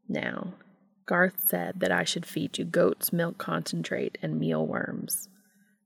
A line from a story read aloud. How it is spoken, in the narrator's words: Cass said softly to the bat